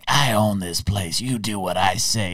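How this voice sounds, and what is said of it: Gangster-style mobster voice. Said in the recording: “my mobster impression ... It was okay.”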